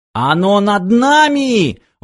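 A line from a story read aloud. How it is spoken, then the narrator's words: Sudden shriek. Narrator (Russian): вдруг взвизгнул Фиф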